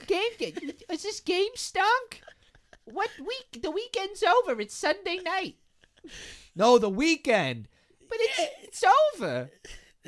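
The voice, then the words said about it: Imitates another person's voice. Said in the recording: “It does sound like your old Sheila ... that was what my impression of”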